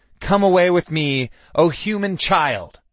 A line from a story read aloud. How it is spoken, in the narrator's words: I spat at him